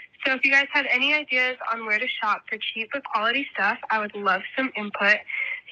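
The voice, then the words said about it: Sick-sounding voice. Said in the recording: “you can probably hear in my voice. I'm kind of sick.”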